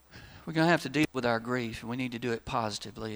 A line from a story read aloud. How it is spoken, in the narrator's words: the wife of the deceased soldier whispered to her husband and said